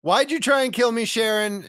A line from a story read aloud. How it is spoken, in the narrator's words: Hoffman yells